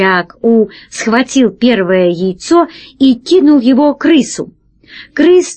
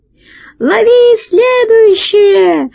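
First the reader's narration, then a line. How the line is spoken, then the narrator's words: Fat man's high-pitched shout. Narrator (Russian): закричал тонким голосом толстяк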